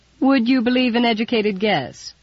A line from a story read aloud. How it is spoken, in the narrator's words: Henner chuckled